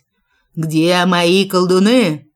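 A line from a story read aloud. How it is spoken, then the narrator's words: Loud barked shout. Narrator (Russian): гаркнул на всю комнатку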